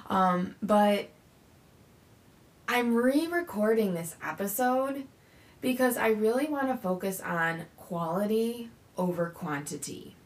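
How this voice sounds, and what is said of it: Slightly croaky voice. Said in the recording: “my voice sounds a little croaky, it's because it's early”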